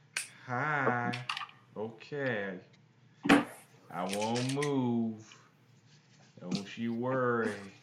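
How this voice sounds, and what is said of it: Shifting syrupy Southern character voice. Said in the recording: “curiously shifting Southern accent, too. He starts out high, but then he goes low... it was syrupy... It was like all over Louisiana, North Carolina.”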